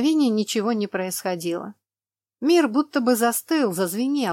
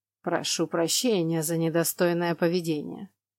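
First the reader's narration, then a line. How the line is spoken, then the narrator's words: Completely calm voice. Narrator (Russian): произнес он совершенно спокойным голосом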